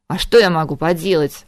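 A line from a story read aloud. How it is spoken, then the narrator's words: Snapping retort. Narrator (Russian): огрызнулся Харган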